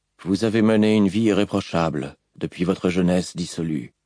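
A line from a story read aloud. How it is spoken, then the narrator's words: Even-voiced man. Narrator (French): répondit l'homme d'une voix égale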